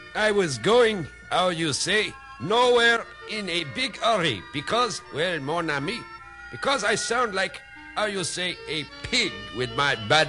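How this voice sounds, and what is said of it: Cruddy put-on French accent. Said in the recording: “A real cruddy accent ... the Indianapolis Academy of the French accent”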